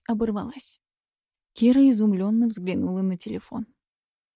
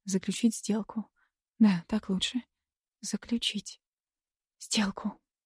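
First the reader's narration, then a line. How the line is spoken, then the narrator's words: Strained whisper. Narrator (Russian): выдавила Кира шепотом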